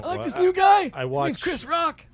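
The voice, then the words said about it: Impression of a friend. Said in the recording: “That's my impression. ... of Dale.”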